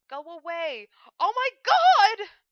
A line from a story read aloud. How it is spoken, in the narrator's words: Except the last bit hadn't been so much mouthed as screamed